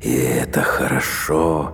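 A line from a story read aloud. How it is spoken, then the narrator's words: Muttered. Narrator (Russian): пробормотал Кадгар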